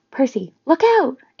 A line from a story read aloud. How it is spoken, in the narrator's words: Annabeth cried